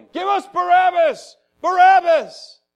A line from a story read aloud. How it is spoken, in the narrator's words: they began shouting